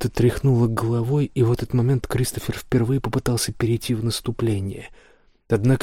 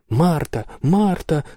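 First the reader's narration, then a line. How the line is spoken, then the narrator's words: Girl screaming. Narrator (Russian): завопила девочка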